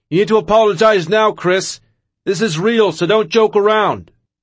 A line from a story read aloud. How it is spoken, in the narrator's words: John Laurinaitis yelling